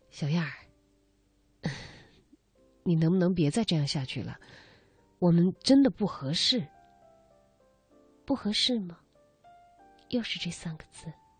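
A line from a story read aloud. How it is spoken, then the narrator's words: Resigned sigh, earnest. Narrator (Chinese): 郑天化深深的叹了一口气，有些无奈，却郑重其事的说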